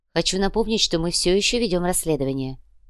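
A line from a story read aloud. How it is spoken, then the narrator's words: Calm. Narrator (Russian): спокойно произнесла Яна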